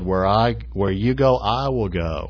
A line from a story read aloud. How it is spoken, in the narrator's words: she said